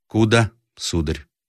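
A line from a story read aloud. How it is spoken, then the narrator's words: Calm question. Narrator (Russian): спросил спокойно Рославлев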